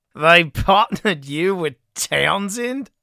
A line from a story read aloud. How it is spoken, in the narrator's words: Campbell barked laughter